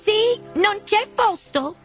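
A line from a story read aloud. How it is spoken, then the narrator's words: Group shouting. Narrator (Italian): gridarono non appena si accorsero di Alice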